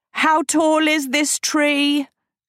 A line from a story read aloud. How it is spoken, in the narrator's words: Agatha shrieked